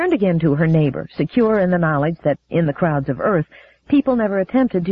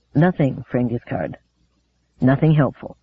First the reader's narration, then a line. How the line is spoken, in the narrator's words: said softly to Giscard